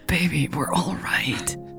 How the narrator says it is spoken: she whispered

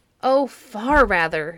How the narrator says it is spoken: exclaimed Perseus, with the tears again standing in his eyes

